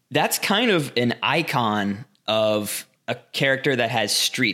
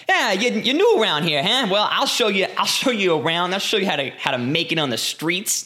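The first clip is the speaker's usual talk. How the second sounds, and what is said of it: Bad put-on street-tough accent. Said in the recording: “This is a terrible accent. ... I loved your slow transition out of the accent ... you still had a little bit of the like, ah, ah.”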